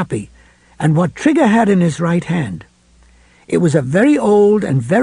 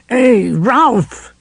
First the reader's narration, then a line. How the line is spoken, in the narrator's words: Trigger cried